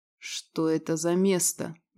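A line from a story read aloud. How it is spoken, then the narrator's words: Quiet. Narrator (Russian): негромко спросил Вольнов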